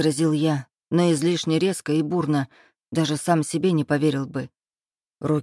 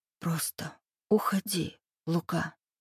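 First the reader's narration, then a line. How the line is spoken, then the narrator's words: Whisper. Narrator (Russian): прошептала она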